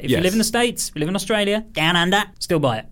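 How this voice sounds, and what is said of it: Impression of an Australian speaker. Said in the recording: “Philip, who wrote the song, is from Australia ... That was me doing an impression of Philip.”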